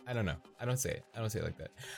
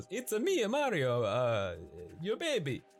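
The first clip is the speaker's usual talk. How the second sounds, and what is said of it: Mario impression, exaggerated Italian accent. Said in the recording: “super Italian? ... how would Mario say baby? ... what are some things that Mario says?”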